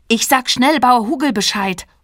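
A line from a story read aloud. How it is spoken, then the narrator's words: Calling out. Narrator (German): ruft Caro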